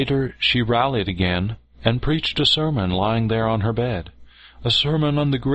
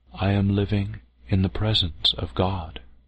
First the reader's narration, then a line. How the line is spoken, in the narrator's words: she said solemnly